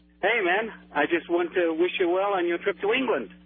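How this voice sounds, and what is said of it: Real British English accent. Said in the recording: “Is this a real accent or a fake accent? ... Oh, no, this is real, man. ... you're from Britain ... From Sheffield, Nottingham.”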